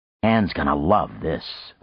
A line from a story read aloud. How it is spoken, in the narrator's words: Frank muttered